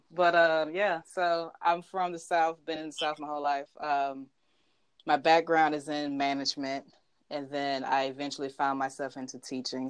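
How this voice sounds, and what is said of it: Southern US accent. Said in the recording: “Oh, Southern. ... That accent.”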